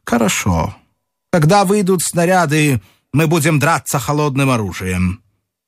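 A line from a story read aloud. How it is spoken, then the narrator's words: Stern speech. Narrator (Russian): генерал Добров сказал, строго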